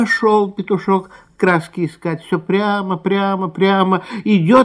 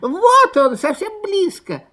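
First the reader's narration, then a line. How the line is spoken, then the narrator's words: Squeaking fox cubs. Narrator (Russian): запищали лисята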